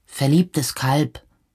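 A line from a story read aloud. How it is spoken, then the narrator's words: Calling after someone. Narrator (German): rief Harald ihm nach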